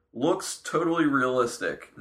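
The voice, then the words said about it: Sarcastic delivery. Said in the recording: “No, that's being sarcastic.”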